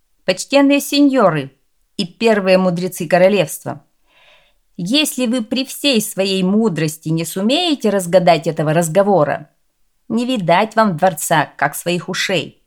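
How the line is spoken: Stern. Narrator (Russian): принц строго сказал

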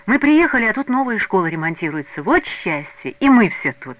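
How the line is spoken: Joyful, smiling. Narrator (Russian): Радостно улыбаясь, говорила Надя Глушкова

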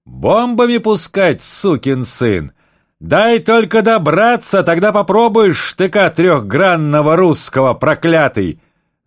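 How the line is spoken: Very loud commander. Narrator (Russian): заговорил ротный командир так громко

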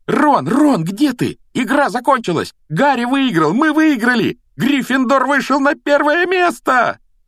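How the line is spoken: Joyful yelling. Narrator (Russian): Радостно вопила Гермиона

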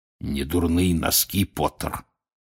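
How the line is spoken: Hoarse rasp. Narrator (Russian): прохрипел Грюм

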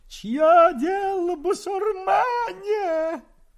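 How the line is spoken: Pained old man shouting. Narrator (Russian): дед, схватившись за ухо обожженными пальцами, смешно прыгал и кричал

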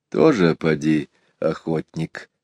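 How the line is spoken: Quiet reply. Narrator (Russian): так же тихо ответил Иван Захарыч

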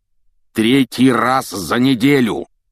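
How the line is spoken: Roaring. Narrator (Russian): проревел он

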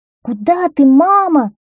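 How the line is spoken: Children shouting in unison. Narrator (Russian): закричали дети в один голос

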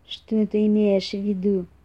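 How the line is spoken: Suspicious grumble. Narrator (Russian): с подозрением проворчал лис

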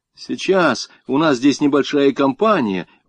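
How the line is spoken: Shouting. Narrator (Russian): он закричал

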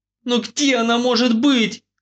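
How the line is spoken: Desperate cry. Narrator (Russian): отчаянно вскрикнула Надя

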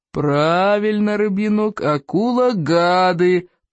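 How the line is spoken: Low booming drone. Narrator (Russian): прогудел Плевака

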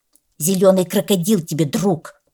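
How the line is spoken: Angry reply. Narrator (Russian): сердито откликнулся енот-полоскун

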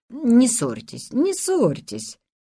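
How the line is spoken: Conciliatory tone. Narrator (Russian): Он терпеть не мог ссор и сказал примирительным тоном

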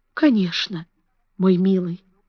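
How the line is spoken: Soft, tender. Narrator (Russian): сказала она тихим, ласковым голосом

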